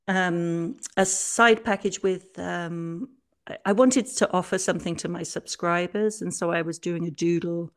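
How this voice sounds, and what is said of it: Hoarse, fading voice. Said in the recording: “I seem to be losing my voice.”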